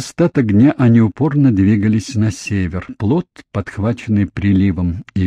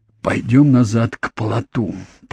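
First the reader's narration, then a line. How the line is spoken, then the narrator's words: Hoarse rasp. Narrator (Russian): прохрипел Джейми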